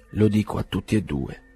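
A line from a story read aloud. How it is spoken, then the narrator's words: Constant murmur. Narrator (Italian): mormorava senza posa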